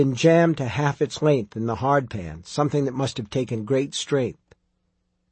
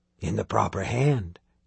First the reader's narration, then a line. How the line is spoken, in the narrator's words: the Covenant Man whispered